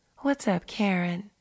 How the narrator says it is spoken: asked Richard, trying to sound sexy by speaking softly

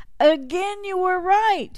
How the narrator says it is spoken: the townsfolk cried out

